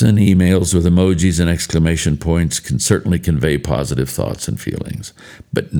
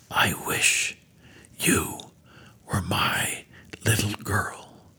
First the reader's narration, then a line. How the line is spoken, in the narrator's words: Her teacher simply whispered